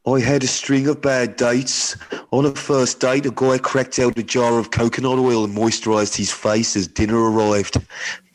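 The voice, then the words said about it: Put-on Birmingham accent. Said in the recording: “you've got to do the accent. I think she's from Birmingham ... That's really good ... I'm so sorry to anyone from Birmingham.”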